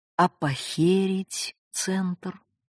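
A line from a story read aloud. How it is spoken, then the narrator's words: Tender question. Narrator (Russian): Я ласково спросила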